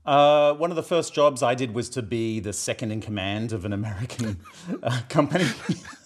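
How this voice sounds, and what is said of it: South Boston accent. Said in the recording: “your accent really does speak Boston. Is it Boston? Right. It's South Boston, right? ... It's South Boston.”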